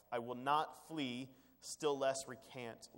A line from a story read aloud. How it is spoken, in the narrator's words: Luther said